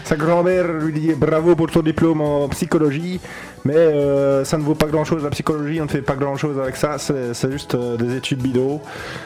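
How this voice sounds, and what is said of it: Switches into a Liège accent. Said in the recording (French): “Oula, j'ai pris un autre accent. ... Il semble que le côté de Liège est ressorti.”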